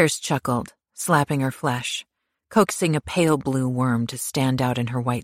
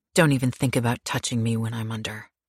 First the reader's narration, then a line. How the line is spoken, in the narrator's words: she said coldly